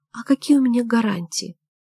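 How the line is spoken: Almost plaintive. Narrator (Russian): добавил почти жалобно

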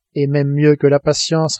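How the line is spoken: Plain. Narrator (French): répondit Conseil

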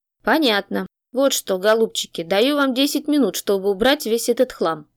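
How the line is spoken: Calm. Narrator (Russian): спокойно продолжал Мах

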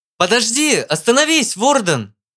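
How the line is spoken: Shout. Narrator (Russian): крикнул Куин

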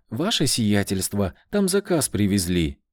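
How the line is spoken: Joyful. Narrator (Russian): радостно сказала она

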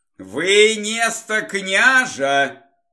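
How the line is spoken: Menacing shout. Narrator (Russian): грозно прокричал Олег

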